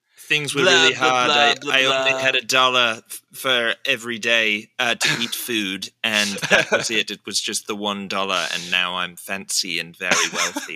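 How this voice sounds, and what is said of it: Put-on accent. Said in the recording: “God, I love your accent.”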